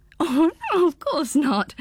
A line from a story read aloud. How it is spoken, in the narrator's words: giggled Pins